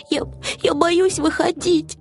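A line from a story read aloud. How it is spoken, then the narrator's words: Sobbing. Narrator (Russian): всхлипнул Финдус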